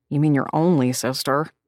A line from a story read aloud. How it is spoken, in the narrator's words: I groaned, my cheeks squashed against her insanely swollen, milk-filled bosom